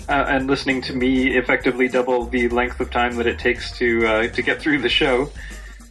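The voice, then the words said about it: Canadian accent. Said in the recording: “the Canadian accent”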